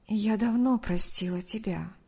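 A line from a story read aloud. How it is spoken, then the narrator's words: Soft reply. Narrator (Russian): мягко ответила Мария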